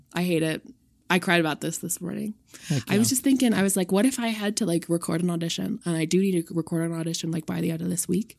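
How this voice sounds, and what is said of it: Strained voice, losing it. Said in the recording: “I sound like ass ... lose my voice”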